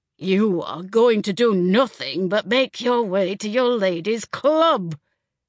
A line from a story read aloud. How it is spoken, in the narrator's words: Sam growled